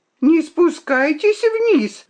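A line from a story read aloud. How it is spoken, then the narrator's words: Shouted warning. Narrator (Russian): закричала она мне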